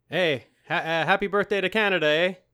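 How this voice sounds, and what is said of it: Exaggerated Canadian accent. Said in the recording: “when it's Canada Day, my true accent comes out, eh?”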